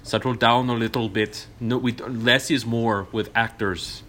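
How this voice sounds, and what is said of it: Jan de Bont's European accent. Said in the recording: “if I were Jan de Bont in my European accent”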